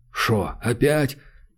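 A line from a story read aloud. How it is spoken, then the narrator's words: Asked with put-on hoarseness. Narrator (Russian): Подпустив голос джигарханяновской хрипотцы, поинтересовался Владимир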